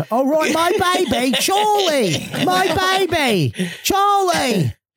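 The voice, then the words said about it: Put-on Australian accent. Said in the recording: “Get an Australian accent.”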